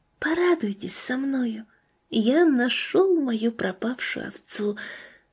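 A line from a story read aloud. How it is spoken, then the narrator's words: Soft and tender. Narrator (Russian): голос Розалии, тихо и нежно говоривший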